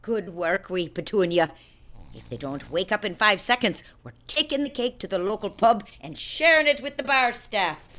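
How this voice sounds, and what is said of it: Irish accent. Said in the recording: “trace of an Irish accent.”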